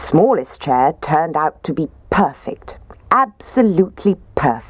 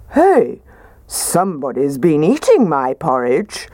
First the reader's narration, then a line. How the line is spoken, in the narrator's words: Daddy Bear said in his gruff voice